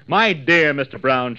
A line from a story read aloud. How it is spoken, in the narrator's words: gushed loudly